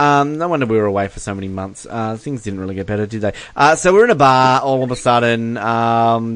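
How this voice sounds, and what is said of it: Usual voice. Nothing is said of it.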